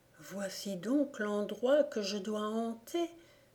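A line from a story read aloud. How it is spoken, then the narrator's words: Ghostly murmur. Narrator (French): murmura le revenant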